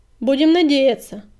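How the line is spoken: Barked. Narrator (Russian): рявкнул Буран

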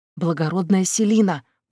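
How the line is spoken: Maid's whispered prompt. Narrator (Russian): подсказала служанка шёпотом

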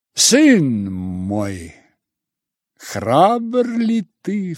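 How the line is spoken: Cry, then loud laughter. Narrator (Russian): вскричала она и захохотала

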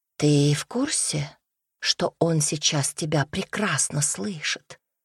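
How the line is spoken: Whisper in ear. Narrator (Russian): прошептала она ему на ухо

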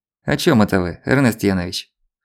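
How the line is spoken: Chuckling. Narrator (Russian): хохотнул Злобин

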